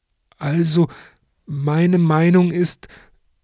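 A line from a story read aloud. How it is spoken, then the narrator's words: Stammering. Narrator (German): stottert der Befragte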